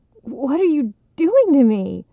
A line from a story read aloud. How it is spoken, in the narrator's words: Greg gasped